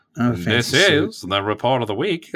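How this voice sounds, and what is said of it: Put-on Mid-Atlantic announcer accent. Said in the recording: “I don't have a good Mid-Atlantic accent, so I can't do the whole... I actually did pretty good there. It's not bad.”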